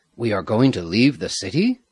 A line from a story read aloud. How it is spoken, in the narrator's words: Kakama asked eagerly